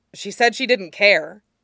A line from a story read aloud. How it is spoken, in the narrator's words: Alistair blurts out